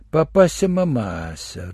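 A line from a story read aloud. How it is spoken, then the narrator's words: Disappointed drawl. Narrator (Russian): разочарованно протянул врач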